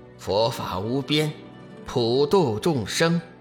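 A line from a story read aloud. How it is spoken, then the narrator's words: Calm deep shout. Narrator (Chinese): 志远还是毫不惊慌，微微一笑，口中沉声喝道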